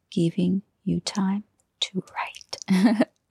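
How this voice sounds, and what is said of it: Very slow, whispered speech. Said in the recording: “I'm talking very slow like this ... I don't know why I had to whisper”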